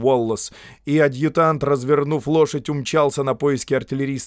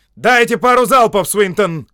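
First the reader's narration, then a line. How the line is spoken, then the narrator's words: Shouted command. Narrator (Russian): крикнул генерал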